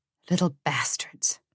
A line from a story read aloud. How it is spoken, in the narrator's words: muttered Harriet